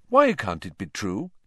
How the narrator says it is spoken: Lupin said calmly

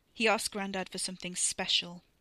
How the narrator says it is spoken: Wes said, his voice flat

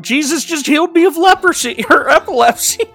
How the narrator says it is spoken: she shouts

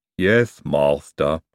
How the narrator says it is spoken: said Igor gloomily

